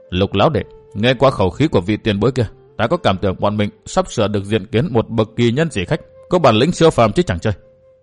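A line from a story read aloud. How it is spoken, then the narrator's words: Old man speaking softly. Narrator (Vietnamese): Lão nhân to lớn nói khẽ với lão nhân nhỏ con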